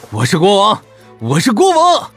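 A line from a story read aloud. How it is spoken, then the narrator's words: Ecstatic excited yelling. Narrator (Chinese): 刘昊天欣喜若狂的 兴奋的狂叫着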